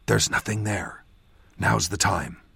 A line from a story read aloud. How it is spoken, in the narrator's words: I whispered to him